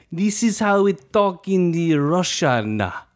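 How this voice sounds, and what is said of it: Bad put-on Russian accent. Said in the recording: “my Russian accent ... Horrible Russian accent”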